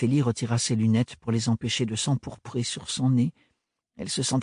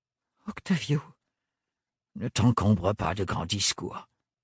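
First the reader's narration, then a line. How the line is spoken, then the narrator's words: Phlegmatic interruption. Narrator (French): la coupa-t-il aussitôt d'un ton flegmatique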